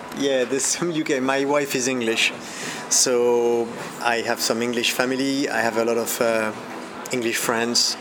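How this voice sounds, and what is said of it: Non-native accent with slight British tinge. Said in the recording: “I'm hearing an accent in your English... sounds like a bit of UK there”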